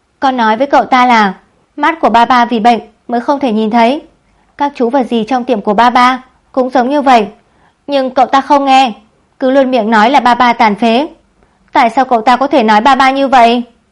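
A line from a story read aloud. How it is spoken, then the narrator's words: Angry loud boy. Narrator (Vietnamese): Khiêm Khiêm dường như lại tức giận, cậu lớn tiếng nói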